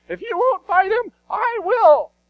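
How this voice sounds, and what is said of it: Imitated voice of biblical David. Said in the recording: “my best David voice”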